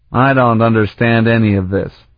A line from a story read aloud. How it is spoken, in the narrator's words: he grumbled